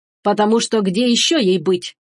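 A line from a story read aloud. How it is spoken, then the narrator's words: Menacing question. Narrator (Russian): грозно поинтересовался Роа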